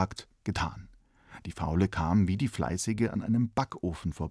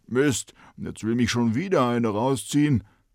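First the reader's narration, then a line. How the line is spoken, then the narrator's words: Bread calling out. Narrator (German): ein Brot und rief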